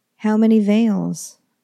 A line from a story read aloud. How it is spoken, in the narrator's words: called out